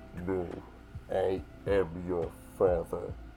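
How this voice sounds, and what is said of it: Darth Vader impression. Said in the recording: “We're doing impressions... I'll do Darth Vader.”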